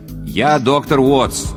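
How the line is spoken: Loud repetition. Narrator (Russian): громко повторил

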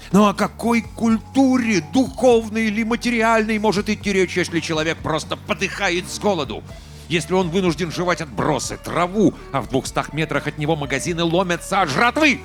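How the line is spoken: Shrill shout. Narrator (Russian): пронзительно выкрикнул

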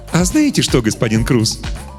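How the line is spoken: Cheerful. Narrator (Russian): весело сказал Добель

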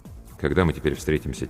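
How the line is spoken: Quiet question. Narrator (Russian): тихо спросил

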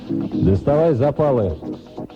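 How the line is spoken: Very loud. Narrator (Russian): громко, гораздо громче, чем обычно, сказал

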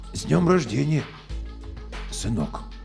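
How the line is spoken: Hoarse, strange voice. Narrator (Russian): Я ответил чужим, хриплым голосом

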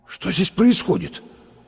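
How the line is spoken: Strained, forced out. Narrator (Russian): выдавил через минуту Лопатиков

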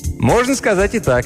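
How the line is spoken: Cheerful. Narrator (Russian): весело ответил Мелдон

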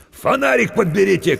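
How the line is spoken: Shout. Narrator (Russian): крикнул он

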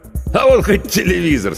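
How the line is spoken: Laughing. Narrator (Russian): смеялся Федор Иванович

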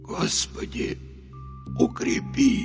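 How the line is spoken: Barely audible, whimpering mutter. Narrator (Russian): Едва слышно пробормотал Михаил, с омерзением ощущая, как его голос срывается на жалобное поскуливание

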